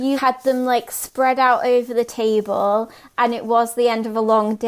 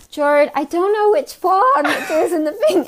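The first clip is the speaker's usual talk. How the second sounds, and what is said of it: Imitates another person's accent. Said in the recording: “I'm gonna like do your accent”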